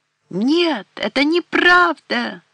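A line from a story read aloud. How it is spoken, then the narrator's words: Shout. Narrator (Russian): закричала Блодуэн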